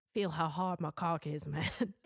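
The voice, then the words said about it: One-note put-on Southern accent. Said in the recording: “I love your Southern accent so much... one note Southern accent... I don't think I'm very good at it”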